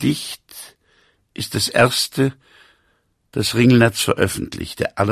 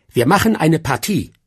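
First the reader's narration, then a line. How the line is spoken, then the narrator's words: Animals calling together. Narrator (German): rief alles Vieh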